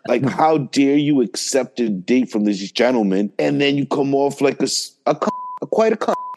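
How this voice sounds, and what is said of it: Put-on English accent. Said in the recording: “you saying it in an English accent”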